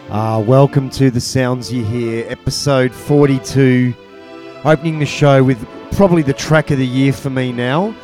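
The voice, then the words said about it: Sick, congested voice. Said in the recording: “You'll have to excuse my voice, I have a little bit of man flu.”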